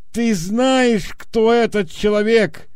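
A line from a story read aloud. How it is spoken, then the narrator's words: Shouting. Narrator (Russian): они закричали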